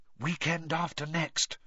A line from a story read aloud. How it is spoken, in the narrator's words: whispered Hermione